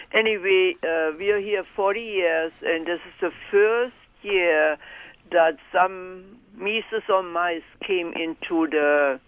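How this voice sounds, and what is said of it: Noticeable accent, hard to follow. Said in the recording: “my accent, you know, whatever. You might have to listen really good.”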